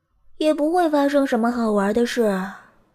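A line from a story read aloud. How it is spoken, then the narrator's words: Sighing. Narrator (Chinese): 另一只乌鸦叹了口气说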